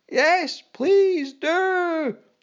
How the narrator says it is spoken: cried out men, women and children

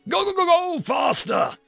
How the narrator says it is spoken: he screamed from his perch

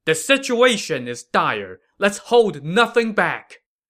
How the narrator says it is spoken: Jiang Wei shouted to his men

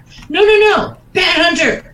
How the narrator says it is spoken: shouted Agent McGaff

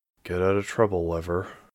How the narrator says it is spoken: she muttered

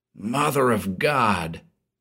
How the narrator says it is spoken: he whispered

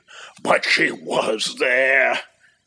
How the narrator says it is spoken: he groaned to himself

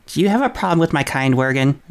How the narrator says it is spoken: She said sharply

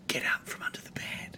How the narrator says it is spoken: she whispers

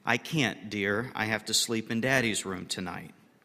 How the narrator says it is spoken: smiling, the mother said tenderly

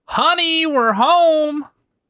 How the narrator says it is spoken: you yell

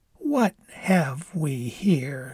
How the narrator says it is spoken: she said slowly

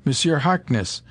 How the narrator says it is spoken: she exclaimed

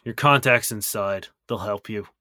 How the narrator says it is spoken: kind of grunts and says

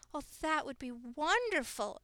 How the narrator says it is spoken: exclaimed Henrietta

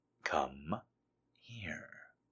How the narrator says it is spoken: repeated softly

